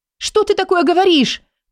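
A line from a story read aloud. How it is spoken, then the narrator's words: Breaking-point shout. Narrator (Russian): закричала она, не выдерживая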